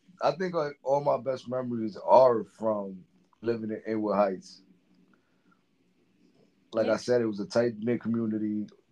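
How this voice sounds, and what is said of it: Slightly hoarse voice. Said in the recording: “I've been screaming all afternoon ... So I'm a little hoarse ... Because of the game”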